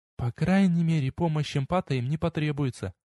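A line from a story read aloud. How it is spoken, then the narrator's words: Barely audible mutter. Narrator (Russian): чуть слышно пробормотала Кевин Харри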